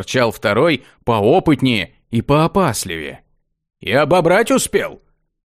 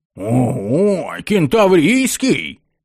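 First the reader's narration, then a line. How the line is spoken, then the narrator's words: Delighted yelling. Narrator (Russian): восторженно завопил первый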